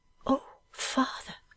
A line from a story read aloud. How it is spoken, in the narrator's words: say in a whisper